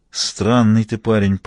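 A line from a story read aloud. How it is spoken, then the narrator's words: Grumbling mighty man. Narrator (Russian): проворчал могучий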